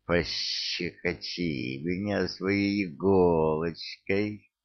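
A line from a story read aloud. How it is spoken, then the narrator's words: Monster hissing. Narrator (Russian): прошипело чудовище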